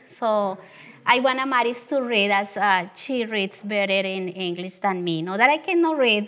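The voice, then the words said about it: Strong Latin American Spanish accent. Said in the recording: “I have this strong Southern accent that is southern of the border ... when I read, my accent is even stronger”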